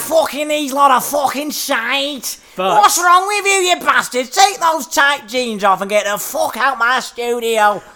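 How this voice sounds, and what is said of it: Poor Manchester accent impression. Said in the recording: “doing an impression ... Is that Manchester, isn't it? ... That's terrible”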